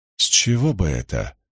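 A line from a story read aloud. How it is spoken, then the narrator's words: Sour mutter. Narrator (Russian): с кислой миной пробормотала Найниф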